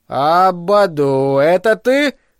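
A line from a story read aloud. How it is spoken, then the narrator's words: Sing-song male question. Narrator (Russian): нараспев спросил он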